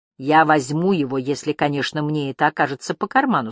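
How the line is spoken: Plain. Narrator (Russian): сказал он

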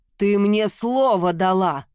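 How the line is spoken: Thundering. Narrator (Russian): прогремел Владар

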